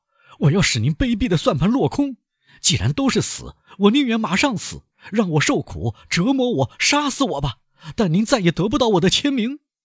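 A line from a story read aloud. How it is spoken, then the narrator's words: Shouting. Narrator (Chinese): 唐格拉尔嚷道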